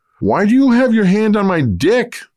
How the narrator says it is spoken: the teen asked loudly

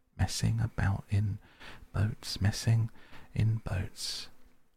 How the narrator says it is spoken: he went on dreamily

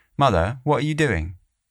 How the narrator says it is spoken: I called out

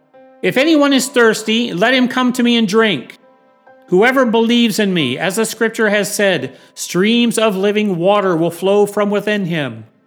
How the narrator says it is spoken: Jesus in a loud voice called out

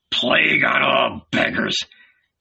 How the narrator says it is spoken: he grumbled

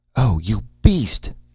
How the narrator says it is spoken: Erika cried

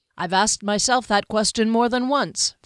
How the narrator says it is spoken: Val Raker said

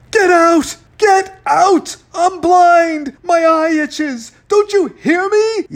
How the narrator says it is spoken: yelled

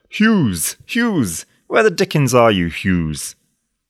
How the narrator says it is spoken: roared

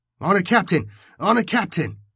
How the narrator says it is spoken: Jonas shouted over the vox, but could not make himself heard

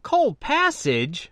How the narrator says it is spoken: I whined, disappointed

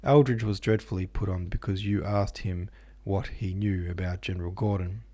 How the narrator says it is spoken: he said to the headmaster with an attempt at a chuckle

